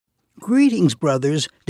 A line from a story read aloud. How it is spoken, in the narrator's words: David said cheerfully